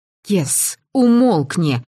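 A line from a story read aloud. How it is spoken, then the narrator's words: Hissed. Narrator (Russian): зашипела я на авантюриста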